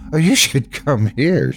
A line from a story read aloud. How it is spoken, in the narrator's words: she said, laughing